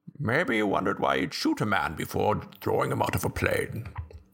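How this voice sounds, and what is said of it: Impersonation of movie villain Bane. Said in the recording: “my Bane impersonation. ... That's pretty good.”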